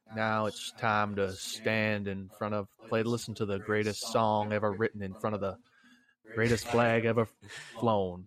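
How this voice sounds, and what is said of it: Slow Southern drawl. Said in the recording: “He was speaking in like a really like slow Southern drawl accent.”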